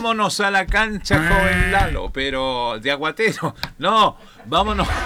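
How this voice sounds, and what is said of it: Usual voice. Nothing is said of it.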